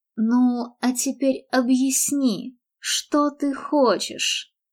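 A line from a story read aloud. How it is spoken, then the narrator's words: Gentle question. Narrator (Russian): мягко осведомился он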